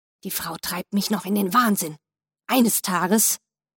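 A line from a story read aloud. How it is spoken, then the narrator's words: Angry mutter into beard. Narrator (German): wütend murmelte in seinen 3-Tage-Bart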